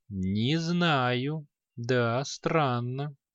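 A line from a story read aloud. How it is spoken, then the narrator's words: Slow. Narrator (Russian): Ученик мага медленно ответил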